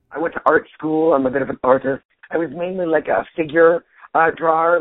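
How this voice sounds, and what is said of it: Husky, nearly lost voice. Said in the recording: “I lose my voice quite a bit, and I'm right on the tail end of just losing my voice. I'm going to just be huskier. And, you know, than usual.”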